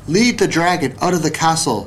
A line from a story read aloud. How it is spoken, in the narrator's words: said